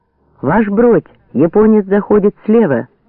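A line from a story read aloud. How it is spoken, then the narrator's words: Sudden shout. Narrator (Russian): закричал вдруг Родионов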